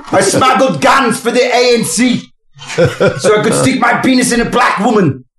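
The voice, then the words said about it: Half-hearted put-on accent. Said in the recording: “that accent didn't commit, did it?”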